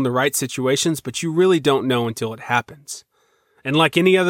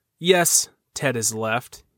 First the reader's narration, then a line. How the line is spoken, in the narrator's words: he said